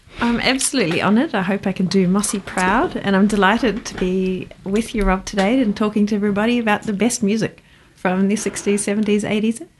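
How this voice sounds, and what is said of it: New Zealand accent. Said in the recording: “I'm a Kiwi, so that's the accent that you may be about be able to hear.”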